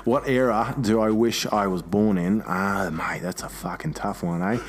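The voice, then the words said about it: Australian accent. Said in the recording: “answer those with an Australian accent”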